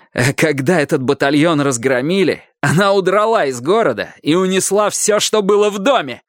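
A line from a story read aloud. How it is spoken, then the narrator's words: Loud yelling. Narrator (Russian): я уже здорово орал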